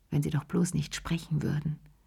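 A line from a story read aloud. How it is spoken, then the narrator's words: Murmuring. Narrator (German): murmelte sie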